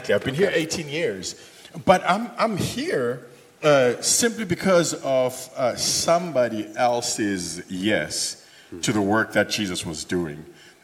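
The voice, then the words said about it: Non-Texan foreign accent. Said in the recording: “you guys can probably tell from the accent and the name like ... that I'm not really from Texas”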